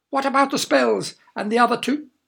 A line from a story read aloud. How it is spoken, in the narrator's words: she cackled again